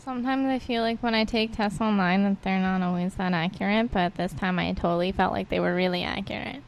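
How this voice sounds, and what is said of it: Nasally public-radio announcer voice. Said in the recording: “a nasally NPR voice”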